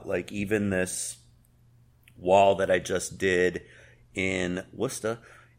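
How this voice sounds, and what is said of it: Poor put-on Boston accent. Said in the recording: “that was a terrible one ... he's trying to do a Boston accent”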